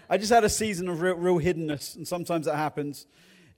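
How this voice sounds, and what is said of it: Regional English accent. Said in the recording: “my accent, I don't speak the Queen's or the King's English. I speak English English ... my regional accent”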